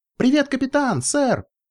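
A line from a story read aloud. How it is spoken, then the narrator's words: Squealing foal. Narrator (Russian): взвизгнул жеребенок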